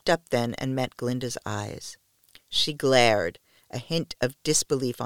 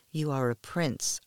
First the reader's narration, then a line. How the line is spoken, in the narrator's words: whispered